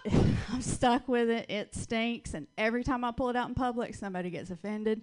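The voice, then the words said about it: Thick Southern US accent. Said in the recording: “I know I sound like Paula Deen. this, this accent is thick with butter ... My accent is a little thicker right now than normal because I just visited Texas ... being from the South”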